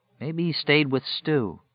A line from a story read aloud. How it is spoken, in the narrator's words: Larry said in a quiet, thoughtful voice